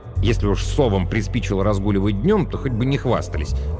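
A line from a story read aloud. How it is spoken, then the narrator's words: Grumble. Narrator (Russian): Она проворчала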